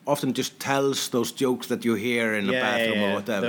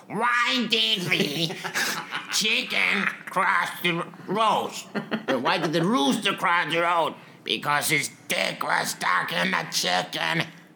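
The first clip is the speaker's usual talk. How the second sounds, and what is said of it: Poor imitation of another person's voice. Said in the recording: “worst Gilbert Godfrey impersonation”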